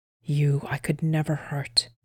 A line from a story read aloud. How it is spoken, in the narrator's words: whispered Erland